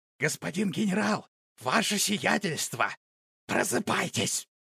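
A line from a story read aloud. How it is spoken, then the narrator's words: Loud whisper. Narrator (Russian): громким шепотом адъютанта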